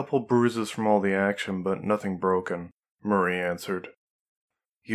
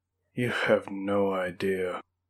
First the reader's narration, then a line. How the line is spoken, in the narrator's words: Marie groaned out